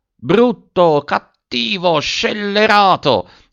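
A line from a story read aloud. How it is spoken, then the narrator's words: Exclaimed. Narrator (Italian): ha esclamato Virginia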